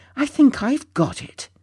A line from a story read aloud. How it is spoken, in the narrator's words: suddenly cried out triumphantly